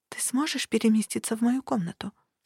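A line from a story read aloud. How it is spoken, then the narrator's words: Quiet whisper. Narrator (Russian): спросила я тихим шепотом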